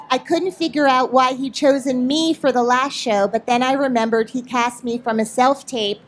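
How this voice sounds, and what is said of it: Speaker's own regional accent. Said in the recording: “It was your accent. I knew it before your accent”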